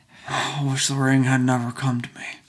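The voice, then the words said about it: Imitates a film character's voice. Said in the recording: “Frodo accent or impression? ... Impression.”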